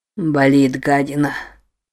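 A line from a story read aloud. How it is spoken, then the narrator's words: Wheezy rasp. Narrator (Russian): просипел Норман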